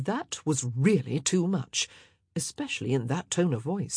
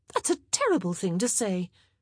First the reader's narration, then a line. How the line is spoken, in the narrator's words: Penelope exclaimed